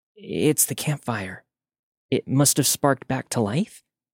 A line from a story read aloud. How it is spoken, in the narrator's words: After a moment of shock, Katie whispered